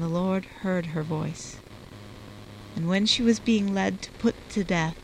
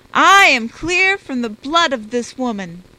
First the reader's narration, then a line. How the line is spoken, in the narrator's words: he cried out with a loud voice